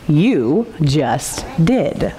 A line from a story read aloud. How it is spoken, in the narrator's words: said the donkey in his low, slow voice